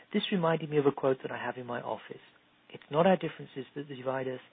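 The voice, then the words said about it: English accent. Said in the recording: “your beautiful English accent”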